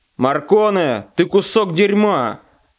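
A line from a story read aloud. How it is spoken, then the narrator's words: Barked. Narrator (Russian): рявкнул федерал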